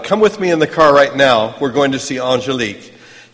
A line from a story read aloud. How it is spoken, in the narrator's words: He shouted